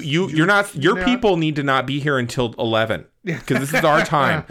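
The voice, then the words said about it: Entitled Karen-style character voice. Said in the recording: “I'm putting on my Charon voice.”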